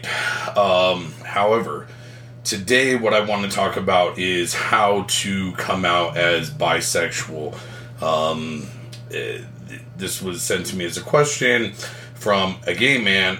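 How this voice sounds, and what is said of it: Raspy, strained voice. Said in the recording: “raspy sound of my voice ... the second time I've lost my voice”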